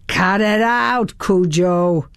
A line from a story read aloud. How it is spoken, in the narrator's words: a deep voice from the back of the house yelled